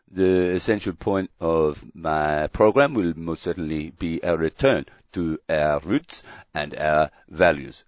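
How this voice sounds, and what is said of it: Put-on Belgian accent. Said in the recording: “an article in La Libre, a Belgian publication. I'll do the accent”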